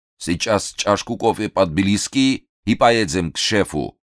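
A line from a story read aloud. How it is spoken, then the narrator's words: Stern commander. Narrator (Russian): строго сказал командир Габуниевского эскадрона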